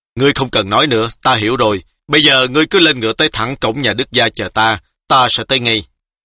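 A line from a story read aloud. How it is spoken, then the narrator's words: Angry. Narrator (Vietnamese): Tú Liên tức giận nói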